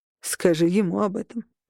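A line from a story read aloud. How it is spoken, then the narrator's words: Snort. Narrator (Russian): хмыкнул Берн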